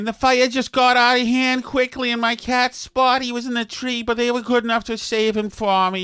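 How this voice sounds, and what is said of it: Put-on Boston accent. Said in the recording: “Boston accents”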